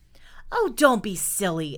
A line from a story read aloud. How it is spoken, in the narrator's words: exclaimed Noodle